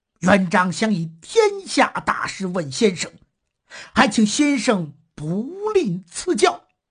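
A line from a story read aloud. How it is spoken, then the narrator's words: Serious, respectful. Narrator (Chinese): 朱元璋收敛起笑容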